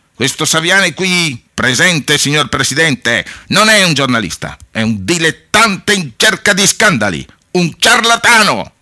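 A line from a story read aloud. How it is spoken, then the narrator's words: Shouting. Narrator (Italian): gridava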